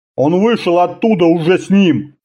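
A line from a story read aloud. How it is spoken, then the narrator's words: Deep bass voice. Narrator (Russian): пробасил офицер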